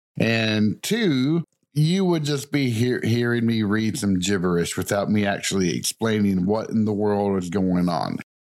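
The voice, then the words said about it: Thick Southern US accent. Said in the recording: “my pronunciation is probably horrible in my thick southern accent”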